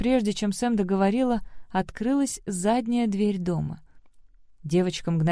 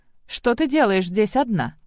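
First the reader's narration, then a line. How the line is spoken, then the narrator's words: Gentle, worried. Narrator (Russian): Он говорил без всякой угрозы и не строго, скорее с беспокойством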